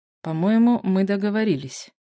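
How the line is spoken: Hissed through teeth. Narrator (Russian): процедил Кристиан

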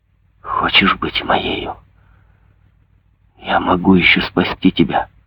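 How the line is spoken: Whispered into ear. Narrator (Russian): наклонившись к ее уху, он прошептал

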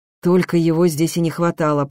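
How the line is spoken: Muttering. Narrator (Russian): пробурчал Берзинь

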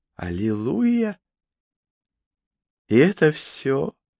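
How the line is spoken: Soft excited purr. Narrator (Russian): тихо промурлыкала она, и ее сердце забилось быстрее

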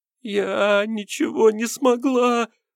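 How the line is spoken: Sobbing. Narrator (Russian): всхлипнула та

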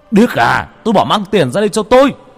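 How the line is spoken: Furious roar. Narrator (Vietnamese): Lúc này cha tôi tức lắm, gầm lên

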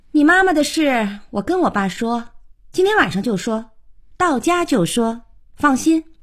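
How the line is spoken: Offhand, not turning back. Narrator (Chinese): 小可 头也不回地说

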